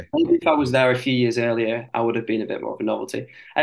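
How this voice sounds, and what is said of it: Northern English accent. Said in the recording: “the northern accent, I don't think, that I've got ... Everyone thought I was Australian though”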